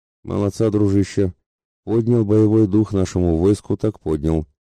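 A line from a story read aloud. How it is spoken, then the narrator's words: Approving grumble. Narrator (Russian): одобрительно проворчал Мирослав Ратибору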